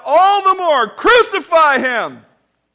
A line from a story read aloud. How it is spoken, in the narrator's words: they cried out